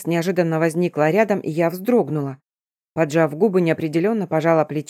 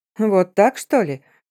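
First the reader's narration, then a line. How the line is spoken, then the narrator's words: Mocking. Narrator (Russian): Насмешливо произнесла рыжая ведьма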